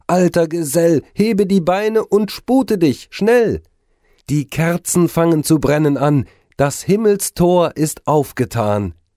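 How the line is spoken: Called out. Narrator (German): rief es

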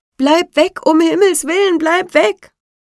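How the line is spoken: Group screaming. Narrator (German): Da schrien die anderen

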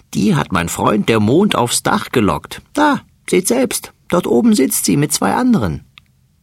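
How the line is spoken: Fat mouse laughing. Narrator (German): lacht der dicke Mäuserich

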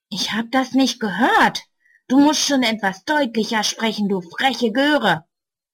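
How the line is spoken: Angry hiss. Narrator (German): Böse zischt er

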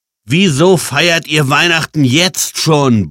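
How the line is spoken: Shouting. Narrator (German): brüllte Jan

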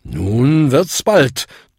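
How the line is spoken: Thundered. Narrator (German): donnerte Bung

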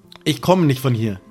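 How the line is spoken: Plain. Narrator (German): sagt Sam

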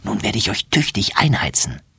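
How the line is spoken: Whispered. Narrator (German): flüstert

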